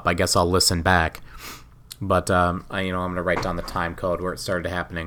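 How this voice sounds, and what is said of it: Hoarse voice. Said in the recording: “I'm still hoarse and coughing a little bit.”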